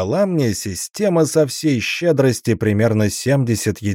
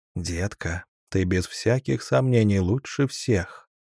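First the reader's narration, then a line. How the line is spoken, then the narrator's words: Whisper. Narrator (Russian): прошептал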